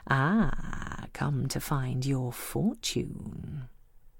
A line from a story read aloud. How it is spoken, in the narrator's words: The old woman says, in her mystical voice